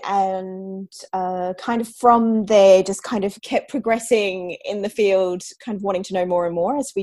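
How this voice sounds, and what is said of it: Australian accent. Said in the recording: “That's an Antipodean accent ... I'm obviously Australian”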